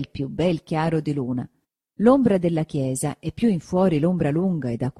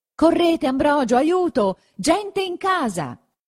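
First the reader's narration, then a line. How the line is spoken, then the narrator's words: Shouted. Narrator (Italian): gridò verso lui don Abbondio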